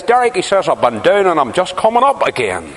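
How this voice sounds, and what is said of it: County Antrim accent. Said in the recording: “he comes up to me in a County Antrim accent”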